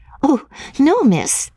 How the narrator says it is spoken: said the girl, laughing

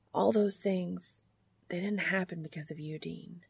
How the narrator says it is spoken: Sam says softly

